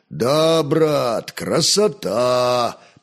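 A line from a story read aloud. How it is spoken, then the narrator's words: Booming drone. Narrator (Russian): прогудел Славомир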